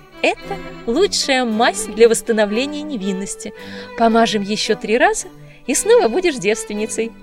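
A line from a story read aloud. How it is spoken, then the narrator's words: Laughing. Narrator (Russian): смеялась Мадлен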